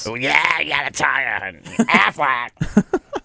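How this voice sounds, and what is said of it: Gilbert Gottfried impression. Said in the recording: “Great impression.”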